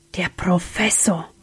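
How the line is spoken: Whispered. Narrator (German): wisperte Sam

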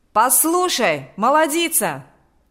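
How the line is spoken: Shout. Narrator (Russian): закричал Миронов

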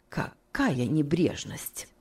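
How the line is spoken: Muttered. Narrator (Russian): пробормотала мисс Офелия

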